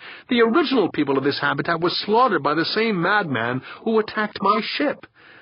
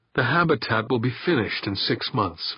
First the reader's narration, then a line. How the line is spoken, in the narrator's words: Victor muttered